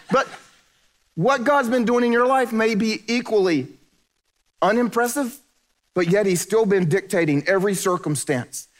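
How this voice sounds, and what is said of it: Southern American accent. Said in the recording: “I just talk for a living, and I do it with a southern accent.”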